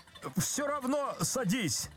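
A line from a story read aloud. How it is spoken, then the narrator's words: Desperate shout. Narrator (Russian): закричал Козлевич отчаянно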